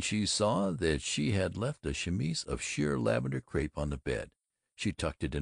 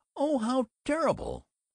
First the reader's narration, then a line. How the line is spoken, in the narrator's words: Sassenberger shrieked